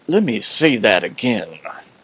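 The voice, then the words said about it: Poor imitation of Mississippi accent. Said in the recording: “he was from Mississippi. That wasn't a very good imitation.”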